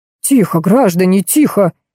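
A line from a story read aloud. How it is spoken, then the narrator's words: Flustered babbling. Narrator (Russian): залепетал Сергей Александрович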